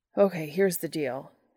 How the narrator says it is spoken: Dean pants

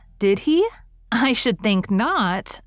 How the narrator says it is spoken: exclaimed Diana indignantly

